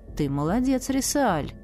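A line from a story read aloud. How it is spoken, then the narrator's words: Thoughtful. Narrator (Russian): задумчиво произнес маг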